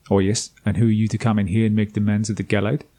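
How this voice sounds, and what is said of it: Weak South African accent. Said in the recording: “I decided to give him a South African accent. Not a very good one, but still.”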